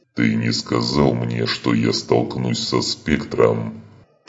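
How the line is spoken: Growled reply. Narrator (Russian): прорычал в ответ Скарр

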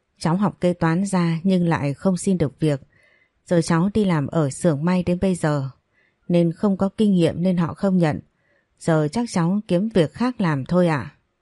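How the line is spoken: Sighing woman. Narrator (Vietnamese): Cô thở dài nói

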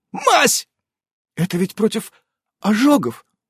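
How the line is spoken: Timid squeak. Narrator (Russian): робко пискнула Эвелина

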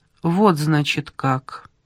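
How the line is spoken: Calm, almost indifferent miller. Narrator (Russian): произнес мельник спокойным, почти равнодушным голосом

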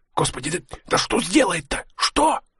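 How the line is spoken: Whisper. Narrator (Russian): шептал Игнатьев

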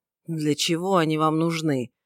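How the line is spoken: Displeased mutter. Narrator (Russian): недовольным голосом пробормотал Симон

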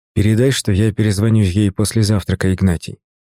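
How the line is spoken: Plain. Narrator (Russian): ответил я

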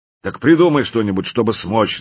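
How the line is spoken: Growling. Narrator (Russian): зарычал слон

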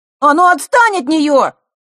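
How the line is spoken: Shouted. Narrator (Russian): выкрикнул Лешка

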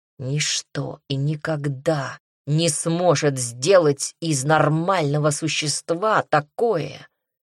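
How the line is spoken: Vampire growl. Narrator (Russian): зарычал вампир

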